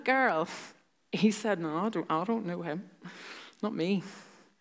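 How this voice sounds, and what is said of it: Slightly altered put-on accent. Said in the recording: “change his accent a wee bit”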